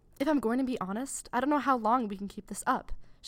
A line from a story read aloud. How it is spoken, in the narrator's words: she blurted out with the sharpness of a snake's tooth